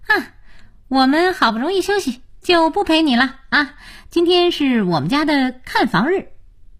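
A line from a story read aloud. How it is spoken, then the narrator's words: Beaming, cheerful. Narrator (Chinese): 才智笑眯眯地说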